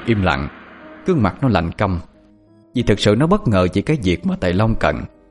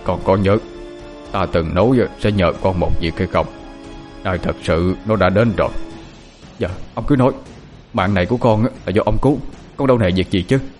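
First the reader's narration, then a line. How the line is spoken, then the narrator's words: Very grave. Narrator (Vietnamese): Thầy Long nói với giọng rất nghiêm trọng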